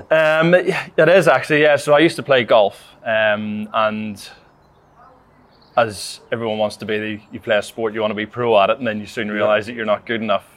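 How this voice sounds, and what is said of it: Northern Irish accent. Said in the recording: “we guessed from the accent that it's Northern Ireland”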